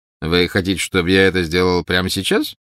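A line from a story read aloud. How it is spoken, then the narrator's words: Ironic question. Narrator (Russian): ироническим тоном спросил Снег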